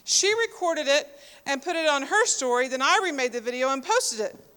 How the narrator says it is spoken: said Castro

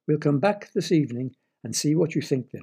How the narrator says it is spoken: replied Jemima

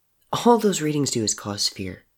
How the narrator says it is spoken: Murdoch said quietly, less relaxed now

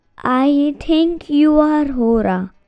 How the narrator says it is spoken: said Abhi quietly, his voice barely louder than a whisper

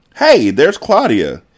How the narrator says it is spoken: exclaimed Margo

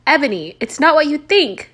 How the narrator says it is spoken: Draco screamed sadly

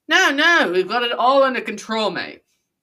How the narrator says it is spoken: slurred Xanth, who didn't even have himself under control

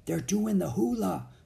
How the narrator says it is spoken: whispered Annie

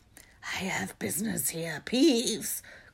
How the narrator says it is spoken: croaked Harry

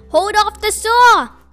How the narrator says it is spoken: Dave yelled

